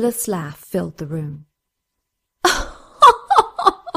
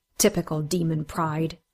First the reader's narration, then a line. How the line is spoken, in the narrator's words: Surreal said under his breath